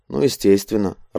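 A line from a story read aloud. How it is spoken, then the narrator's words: Irritated grumble. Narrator (Russian): раздраженно буркнул Шагади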